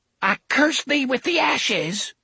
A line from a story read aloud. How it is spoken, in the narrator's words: Cordelia cried